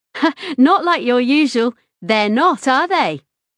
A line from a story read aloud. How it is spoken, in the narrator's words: Her voice was triumphant